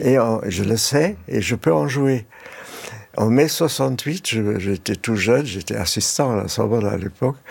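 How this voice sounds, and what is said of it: Slight German accent in French. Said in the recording (French): “mon petit accent allemand”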